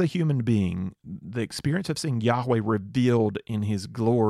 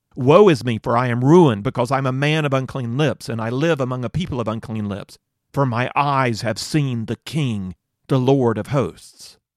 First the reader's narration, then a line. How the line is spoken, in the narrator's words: He cried out